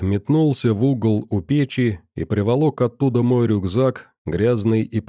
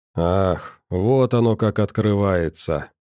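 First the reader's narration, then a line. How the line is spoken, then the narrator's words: Sorrowful sigh, old man. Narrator (Russian): пенсионер горестно вздохнул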